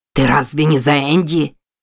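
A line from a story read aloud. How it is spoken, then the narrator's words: Growling. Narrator (Russian): прорычал мужчина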